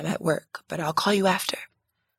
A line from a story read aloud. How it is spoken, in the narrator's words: I whispered, rushing him off the phone